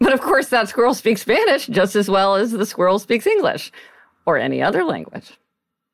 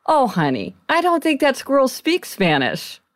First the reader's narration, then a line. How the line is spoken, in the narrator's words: he said kindly to the girl